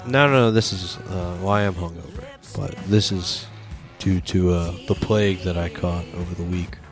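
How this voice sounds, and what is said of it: Sick-sounding voice. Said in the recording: “I'm coming over a sickness, which is why my voice sounds.”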